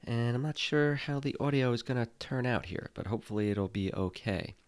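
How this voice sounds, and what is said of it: Sick voice, has a cold. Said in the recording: “I am a little sick. ... I have a cold”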